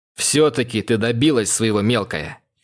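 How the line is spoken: Brother's snorting chuckle. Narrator (Russian): хмыкнул брат

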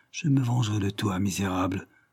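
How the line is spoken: Murmured. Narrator (French): murmura-t-elle

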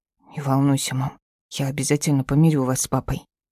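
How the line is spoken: Son whispering in ear. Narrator (Russian): прошептал на ухо сын

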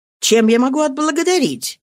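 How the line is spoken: Grateful exclamation. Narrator (Russian): воскликнула с признательностью

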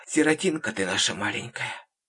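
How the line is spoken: Whisper. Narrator (Russian): шептала

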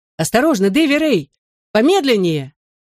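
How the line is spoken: Shouted warning. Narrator (Russian): закричал я

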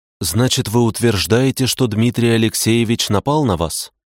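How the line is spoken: Plain. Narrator (Russian): спросила она

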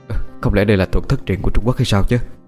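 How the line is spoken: Muttering. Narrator (Vietnamese): Cậu lẩm bẩm

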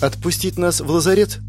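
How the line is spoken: Timid suggestion. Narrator (Russian): робко предложила Криста

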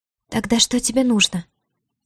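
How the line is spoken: Uncertain question. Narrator (Russian): неуверенно спросила Диара

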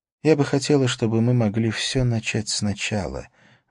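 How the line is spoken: Sighing. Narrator (Russian): вздохнула она

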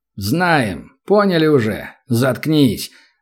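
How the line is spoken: Rude. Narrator (Russian): грубо сказал один из хаев

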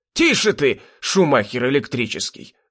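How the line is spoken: Old man hissing. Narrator (Russian): зашипел старик

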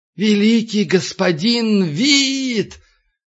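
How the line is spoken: Soft meowing bawl. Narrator (Russian): Ближайший к нему монах проорал мягким, мяукающим голосом

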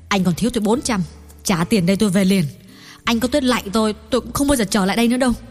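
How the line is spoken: Harsh. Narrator (Vietnamese): gay gắt bảo Hoàng Cảnh

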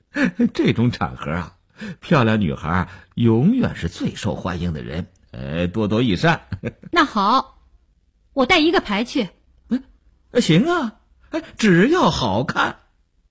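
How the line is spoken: Smiling. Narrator (Chinese): 刘文庆笑道

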